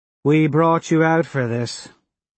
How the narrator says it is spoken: Harmony sighs

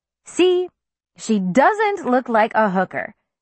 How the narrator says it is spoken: Susanna said triumphantly

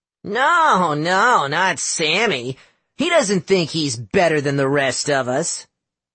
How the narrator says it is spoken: Howard sneered

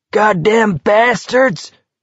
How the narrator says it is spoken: Parker was screaming

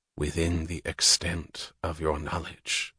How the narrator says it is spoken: Francisco said quietly

